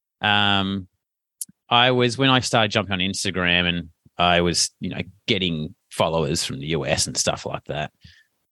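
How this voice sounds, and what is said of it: Australian accent. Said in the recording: “my accent's going to kill me ... my Australian accent ... this weird Aussie dude”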